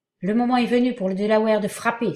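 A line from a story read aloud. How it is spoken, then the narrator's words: Exclaiming. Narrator (French): s'écria Duncan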